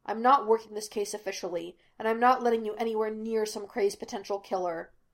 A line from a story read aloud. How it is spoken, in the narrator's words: Laster snapped